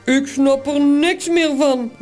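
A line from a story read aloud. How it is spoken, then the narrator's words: Grumbling. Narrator (Dutch): bromt Toos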